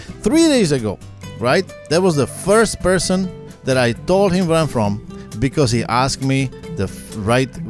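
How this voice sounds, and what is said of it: Foreign accent. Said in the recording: “Yes, I have an accent ... You're from another place in a different continent.”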